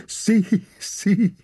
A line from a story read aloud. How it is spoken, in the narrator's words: laughed the hidden people